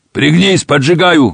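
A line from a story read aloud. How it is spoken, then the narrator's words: Shouted. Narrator (Russian): выкрикнул Машин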